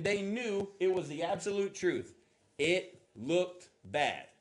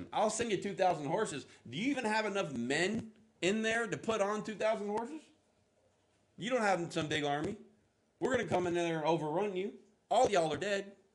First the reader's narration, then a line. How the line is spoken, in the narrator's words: says, he mocks him